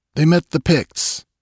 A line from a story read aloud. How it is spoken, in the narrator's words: answered Balthus briefly